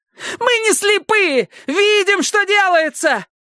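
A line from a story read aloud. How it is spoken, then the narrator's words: Shouting. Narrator (Russian): кричала Пиппа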